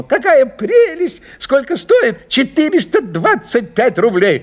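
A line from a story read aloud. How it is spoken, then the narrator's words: Fake, fawning exclamation. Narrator (Russian): льстец, гиперболист и фальшивая, низкопоклонная душонка ... ненатурально воскликнул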